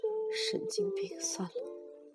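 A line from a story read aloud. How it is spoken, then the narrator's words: Taken-aback muttering. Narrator (Chinese): 中年男子一愣，嘀咕说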